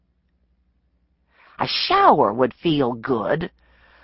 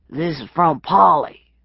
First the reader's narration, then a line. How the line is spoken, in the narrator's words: the man grunted